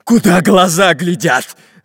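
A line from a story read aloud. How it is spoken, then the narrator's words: Shouting pirate. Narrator (Russian): закричал пират Буль-Буль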